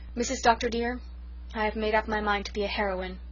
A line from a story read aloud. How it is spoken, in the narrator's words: solemnly declared